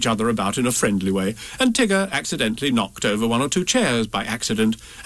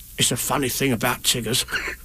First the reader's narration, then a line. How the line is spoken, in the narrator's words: whispered Tigger to Roo